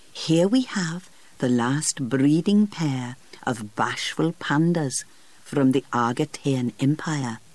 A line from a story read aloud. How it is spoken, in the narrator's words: the keeper whispered